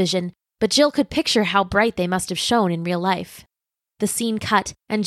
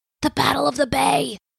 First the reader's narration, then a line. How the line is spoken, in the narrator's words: whispered Specs